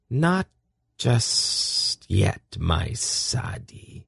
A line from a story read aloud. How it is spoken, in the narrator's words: she said in a whisper that was almost a purr